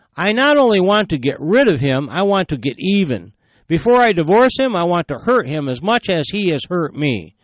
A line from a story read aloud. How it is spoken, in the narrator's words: She exclaimed